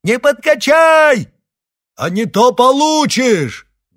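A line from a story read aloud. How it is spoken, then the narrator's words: Loud addition. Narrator (Russian): громко добавила Ирина Клепцова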